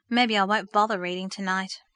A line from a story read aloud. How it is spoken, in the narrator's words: she decided with a sigh